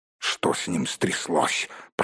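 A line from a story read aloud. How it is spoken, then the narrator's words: Grumbling. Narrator (Russian): проворчал Торин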